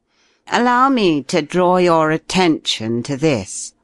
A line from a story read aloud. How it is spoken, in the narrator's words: he said, in a loud, clear voice, every note of which carried to the back of the long room